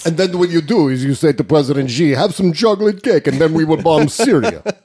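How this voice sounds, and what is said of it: Russian-accented imitation voice. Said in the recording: “in a Russian accent ... Putin talking to Trump ... that voice”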